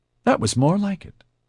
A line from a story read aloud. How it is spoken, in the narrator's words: she said brightly